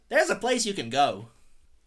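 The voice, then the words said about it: Impression of a video game pedestrian. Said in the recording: “video game impression ... from GTA 3, because I like the pedestrian in that ... there's a like gay sailor guy that keeps making like village people quotes. Maybe I'll do that.”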